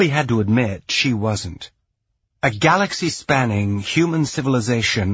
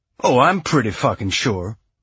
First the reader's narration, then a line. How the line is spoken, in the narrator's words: Alex replied with a snort